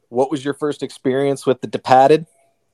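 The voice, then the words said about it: Bad put-on Boston accent. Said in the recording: “That's the only time I'll do a bad Boston accent.”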